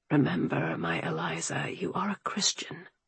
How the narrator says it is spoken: Alexander murmured

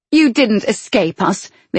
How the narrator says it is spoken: the other woman snapped

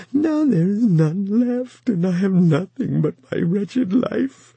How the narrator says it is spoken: he whimpered

